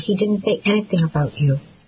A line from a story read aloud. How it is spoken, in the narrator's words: I said softly